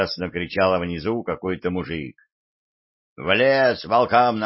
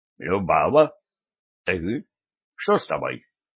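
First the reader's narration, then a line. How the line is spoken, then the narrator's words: Rowdy shout, abruptly cut off. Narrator (Russian): внезапно и резко оборвался крик буйного гостя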